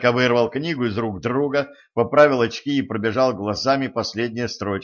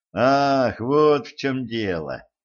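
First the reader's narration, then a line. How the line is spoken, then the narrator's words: Relieved sigh. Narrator (Russian): облегченно вздохнул Виол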